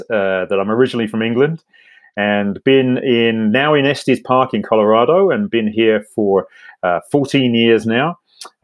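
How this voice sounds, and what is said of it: British accent. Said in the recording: “I have a Brit accent,”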